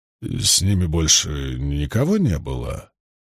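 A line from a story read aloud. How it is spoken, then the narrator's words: Unusually quiet deep buzzing voice. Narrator (Russian): Голос его прозвучал необычайно тихо для Агира, словно гигантский шмель гудел в огромном кувшине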